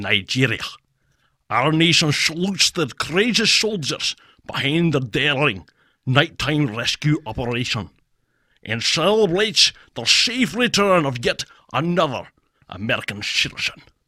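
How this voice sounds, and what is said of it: Sean Connery-style Scottish impression. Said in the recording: “That's pretty good ... That's a good Sean Connery”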